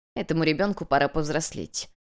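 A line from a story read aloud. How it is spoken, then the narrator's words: Dry, curt. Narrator (Russian): сухо отрезала хозяйка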